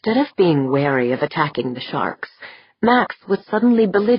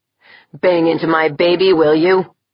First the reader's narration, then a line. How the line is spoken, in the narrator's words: Jaeger snarled, his voice deepening into an oath of vengeance